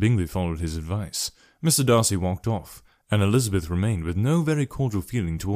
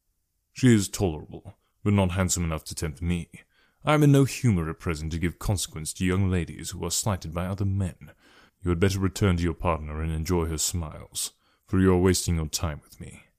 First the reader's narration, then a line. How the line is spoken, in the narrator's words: coldly said